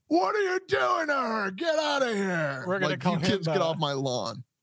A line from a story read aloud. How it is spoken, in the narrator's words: her ninety pound soaking wet uh, man uh, starts screaming